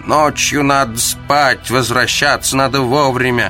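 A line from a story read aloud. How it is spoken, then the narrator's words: Distant grumbling doorkeeper. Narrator (Russian): Издалека голос привратницы проворчал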